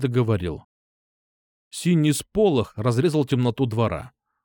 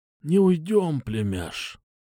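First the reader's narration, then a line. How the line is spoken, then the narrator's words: Quiet. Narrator (Russian): тихо сказал он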